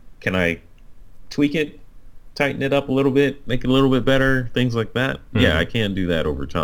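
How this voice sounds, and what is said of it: Usual voice. Nothing is said of it.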